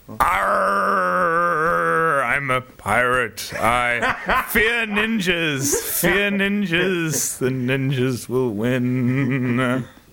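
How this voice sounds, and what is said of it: Pirate voice impression. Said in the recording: “your best pirate impression”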